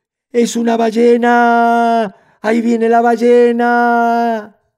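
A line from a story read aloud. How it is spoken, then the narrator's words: Small caimans screaming in terror. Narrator (Spanish): los yacarés chiquitos comenzaron a gritar como locos de miedo, gritaban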